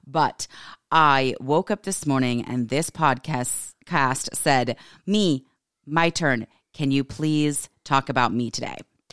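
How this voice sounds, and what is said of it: Hoarse, slightly off voice. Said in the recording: “I am so sorry about this voice ... my voice sounds slightly off, that is because I believe I'm about to lose my voice. I think I have a little bout of laryngitis”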